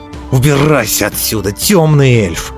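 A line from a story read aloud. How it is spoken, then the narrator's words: Growling. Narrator (Russian): зарычал Конор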